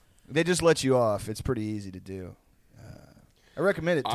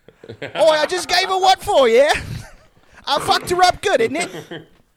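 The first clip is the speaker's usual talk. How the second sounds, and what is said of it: Put-on Cockney accent. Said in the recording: “with a Cockney accent”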